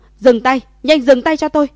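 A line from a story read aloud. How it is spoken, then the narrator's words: Urgent loud shout. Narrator (Vietnamese): Quản lý sắc mặt biến đổi lớn, vội vã cao giọng hô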